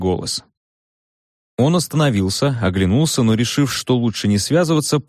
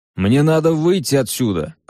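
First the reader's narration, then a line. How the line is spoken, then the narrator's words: Yelling. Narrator (Russian): завопил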